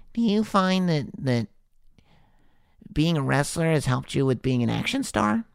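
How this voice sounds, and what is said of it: Nasal young Sam Roberts impression. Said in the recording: “doing a young Sam Roberts impression ... I'm talking out of my nose”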